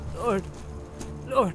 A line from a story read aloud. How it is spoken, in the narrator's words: began Merry brokenly